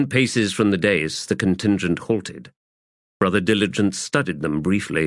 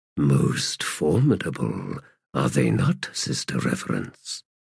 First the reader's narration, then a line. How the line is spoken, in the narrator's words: Brother Diligence murmured